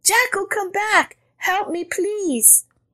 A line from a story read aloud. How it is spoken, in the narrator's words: Rabbit cried